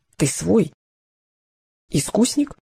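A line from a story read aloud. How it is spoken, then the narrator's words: Whispered. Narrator (Russian): нашептывали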